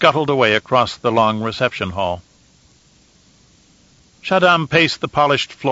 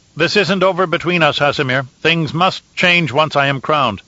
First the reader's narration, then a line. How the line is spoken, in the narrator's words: he called out